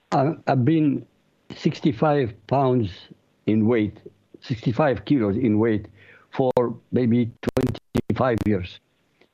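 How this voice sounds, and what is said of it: Non-American accent. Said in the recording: “clearly from your accent, you aren't from the States”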